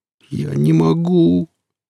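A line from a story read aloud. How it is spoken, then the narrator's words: Mercenary's near moan. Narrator (Russian): почти простонал наемник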